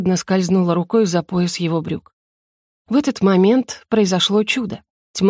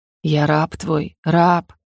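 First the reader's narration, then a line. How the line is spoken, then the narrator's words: Darkness's wheezing rasp. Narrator (Russian): просипела тьма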